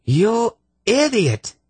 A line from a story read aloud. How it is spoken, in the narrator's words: She shrieked at the cringing Yarblek